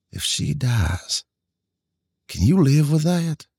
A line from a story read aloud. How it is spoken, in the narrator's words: whispered